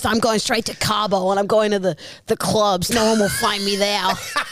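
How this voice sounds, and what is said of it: Put-on Mexican Bronx accent, speech impediment. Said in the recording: “a Mexican from the Bronx with a speech impediment ... my accents have been pretty good today”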